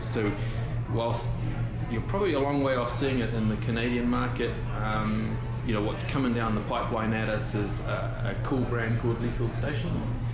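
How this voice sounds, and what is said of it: New Zealand accent. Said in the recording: “It's the accent that gets me. ... It's a crazy accent”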